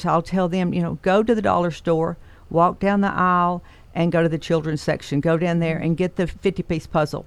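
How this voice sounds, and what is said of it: Tennessee Southern accent. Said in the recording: “up in Tennessee, where I grew up, that's where this accent came from”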